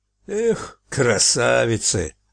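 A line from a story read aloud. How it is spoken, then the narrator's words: Sighing. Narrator (Russian): вздохнул Фарк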